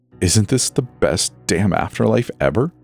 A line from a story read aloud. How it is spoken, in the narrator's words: Cain laughed